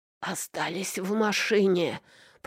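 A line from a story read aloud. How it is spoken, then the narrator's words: Raspy hiss. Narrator (Russian): просипел он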